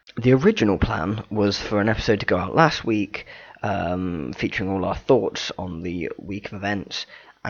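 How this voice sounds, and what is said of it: Strained, struggling voice. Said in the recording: “as you may be able to tell, my voice is still struggling slightly from it”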